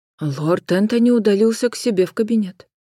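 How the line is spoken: Agitated butler. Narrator (Russian): взволнованно отозвался дворецкий

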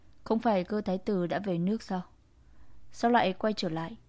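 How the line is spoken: Cold and cruel. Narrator (Vietnamese): Cơ Kình Thiên lạnh lùng tàn nhẫn

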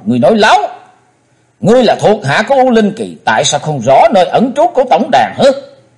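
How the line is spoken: Loud furious shout. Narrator (Vietnamese): Chí Tôn hét to

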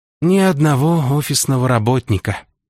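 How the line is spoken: Sad sigh. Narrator (Russian): грустно вздохнул Антон

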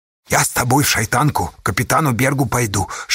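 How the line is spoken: Whisper while slurping soup. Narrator (Russian): шептал Федька Асташа, шумно хлебая остывшие щи

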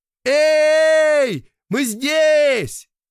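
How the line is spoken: Shouted. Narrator (Russian): закричал Тоха

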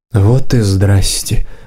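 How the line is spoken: Muttering. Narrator (Russian): пробормотала хозяйка

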